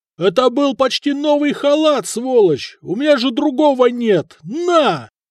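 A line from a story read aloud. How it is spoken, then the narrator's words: Warrior yelling. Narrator (Russian): воин заорал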